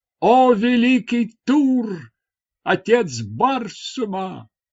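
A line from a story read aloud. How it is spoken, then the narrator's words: Shout. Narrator (Russian): закричала она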